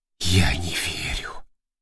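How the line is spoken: Tearful whisper. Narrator (Russian): прошептал рулевой, выступившие на глазах слезы

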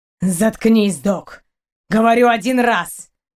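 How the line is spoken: Barking. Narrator (Russian): Рявкнул капитан

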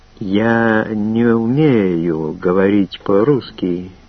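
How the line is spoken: Slow, word by word. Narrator (Russian): медленно каждое слово отдельно произнесла она

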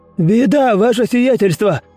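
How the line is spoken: Running, yelling steward. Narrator (Russian): орал на бегу управляющий

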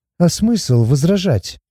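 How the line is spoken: Glum mutter. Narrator (Russian): уныло пробормотала Сати

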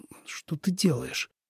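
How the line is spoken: Bewildered forced speech. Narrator (Russian): выдавил из себя обескураженный Лен

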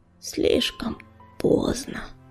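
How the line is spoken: Barely audible rustling whisper. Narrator (Russian): Еле слышно прошелестел Буран

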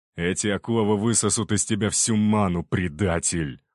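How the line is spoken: Growling guard. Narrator (Russian): прорычал один из защитников императора

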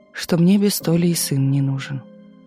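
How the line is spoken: Gloomy reply. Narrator (Russian): мрачно ответила Галя

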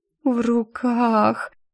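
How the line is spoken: Blissfully dazed repetition. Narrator (Russian): с видом блаженной идиотки повторила я

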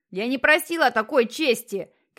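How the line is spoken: Shouting at full strength. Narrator (Russian): кричал Джексон изо всех сил

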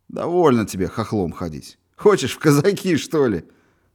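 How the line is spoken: Laughing. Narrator (Russian): Волошинов рассмеялся

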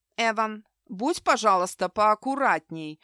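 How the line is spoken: Stern. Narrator (Russian): строго сказала Тори Айзекс

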